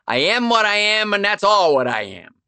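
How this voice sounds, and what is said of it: Popeye impression. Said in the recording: “my Popeye impression”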